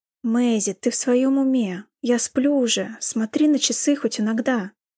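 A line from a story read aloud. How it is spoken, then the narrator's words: Groaning. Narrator (Russian): простонал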